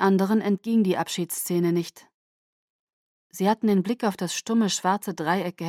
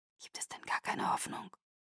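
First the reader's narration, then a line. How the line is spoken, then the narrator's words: Whisper. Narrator (German): flüsterte Carlyle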